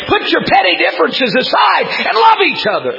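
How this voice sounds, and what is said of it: Screaming, very loud preaching. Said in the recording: “why are you screaming?”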